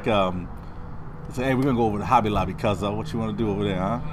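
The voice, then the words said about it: Southern urban accent. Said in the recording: “I feel weird talking like this. I spent so long getting rid of that accent ... It's like a southern urban accent.”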